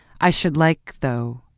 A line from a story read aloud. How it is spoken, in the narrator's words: he continued in a firmer voice